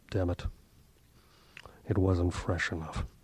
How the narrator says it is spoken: West muttered through his bandages

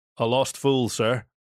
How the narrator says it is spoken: said Alexis, finally

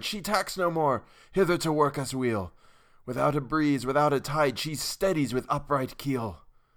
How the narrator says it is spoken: I cried

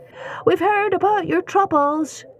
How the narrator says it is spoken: they yelled

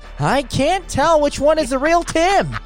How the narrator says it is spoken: Andrew yells

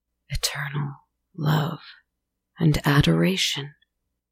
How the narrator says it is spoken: whispered

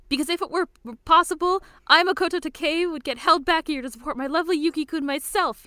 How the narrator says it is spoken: he screams

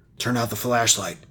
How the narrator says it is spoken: whispered harshly

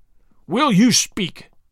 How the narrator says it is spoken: thundered Chauvelin, menacingly

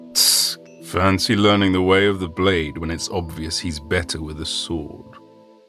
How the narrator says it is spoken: murmuring

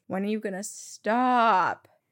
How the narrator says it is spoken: I groan and ask

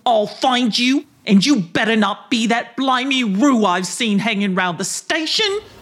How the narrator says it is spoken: said with a snarl

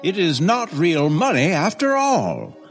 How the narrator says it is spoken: cried the man

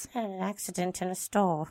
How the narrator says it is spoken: David replied in a mumbled voice

